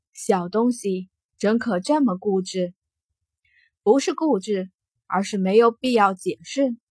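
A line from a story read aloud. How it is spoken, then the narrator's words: Soft chuckle. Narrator (Chinese): 傲孤一寒轻笑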